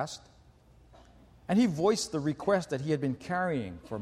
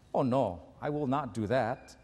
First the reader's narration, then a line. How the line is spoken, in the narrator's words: She firmly said to him